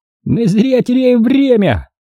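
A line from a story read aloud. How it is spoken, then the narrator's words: Shouted. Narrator (Russian): крикнул Хорт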